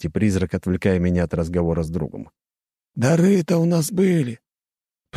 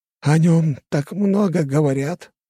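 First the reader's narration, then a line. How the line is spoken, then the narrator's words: Sigh. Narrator (Russian): вздохнул второй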